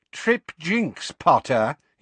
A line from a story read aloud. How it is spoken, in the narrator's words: he said